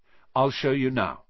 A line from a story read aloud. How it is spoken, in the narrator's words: said Wood